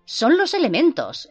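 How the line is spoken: Exclaiming. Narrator (Spanish): exclamé

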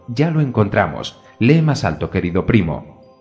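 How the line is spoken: Exclaimed. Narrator (Spanish): exclamó Elof

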